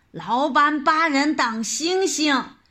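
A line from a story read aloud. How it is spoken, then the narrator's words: Angry crowd shouting. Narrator (Chinese): 人群中愤怒的叫喊声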